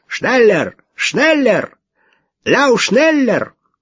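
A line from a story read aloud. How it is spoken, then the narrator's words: Shouting. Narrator (Russian): закричал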